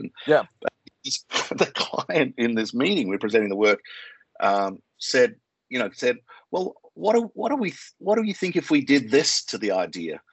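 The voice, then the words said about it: Australian accent. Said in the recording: “I obviously I'm Australian, you can tell by my accent”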